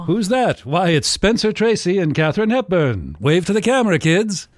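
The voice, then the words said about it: Old-Hollywood mid-Atlantic accent. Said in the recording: “With a mid-Atlantic accent.”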